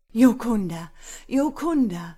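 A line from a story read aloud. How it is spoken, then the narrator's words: Breathless excited outburst. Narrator (German): entfuhr es ihm vor Aufregung schier atemlos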